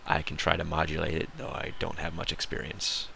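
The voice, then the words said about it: American accent. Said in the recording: “I have an American accent”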